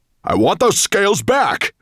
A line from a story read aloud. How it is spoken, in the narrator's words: roared Nettlebrand